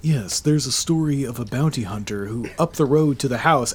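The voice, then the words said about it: Mimics a calm public radio voice. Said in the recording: “let me see if I can get a good NPR voice.”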